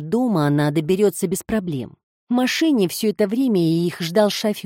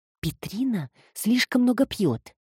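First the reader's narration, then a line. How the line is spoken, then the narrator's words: Quiet remark. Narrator (Russian): Эми тихонько заметила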